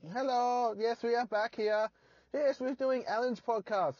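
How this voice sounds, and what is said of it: Comic character voice impersonation. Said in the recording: “do an impersonation ... Who wants to hear the Jabbers return?”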